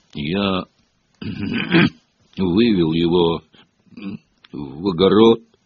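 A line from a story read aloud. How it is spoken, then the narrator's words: Mumbled. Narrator (Russian): пробормотал Хагрид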